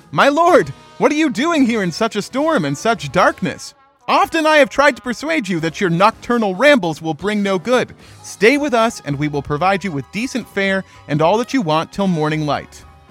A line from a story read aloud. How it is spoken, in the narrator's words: The manager of his salt pans, a married man of that town, called out